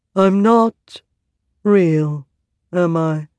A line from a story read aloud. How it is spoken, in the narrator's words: he said in a monotone